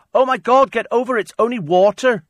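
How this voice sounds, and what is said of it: Put-on accent, shouted. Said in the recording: “I don't know why I did that as an accent.”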